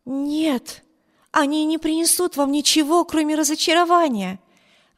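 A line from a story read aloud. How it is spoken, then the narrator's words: Exclaimed. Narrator (Russian): воскликнула мисс Тревор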